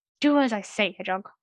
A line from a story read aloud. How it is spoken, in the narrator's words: he snapped